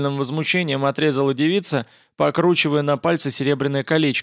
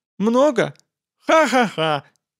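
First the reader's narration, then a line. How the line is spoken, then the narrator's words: Mirthless laugh. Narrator (Russian): рассмеялась она совсем не смешным голосом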